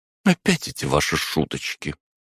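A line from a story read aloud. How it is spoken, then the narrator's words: Quiet. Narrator (Russian): тихо произнесла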